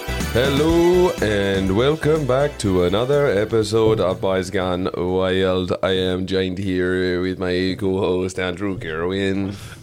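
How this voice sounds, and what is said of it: Jamaican accent in a robotic voice. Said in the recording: “Is that like a Caribbean accent or a robot? ... It's Jamaican Stephen Hawking.”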